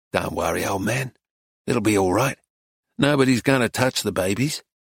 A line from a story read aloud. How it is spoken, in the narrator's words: Arkady said softly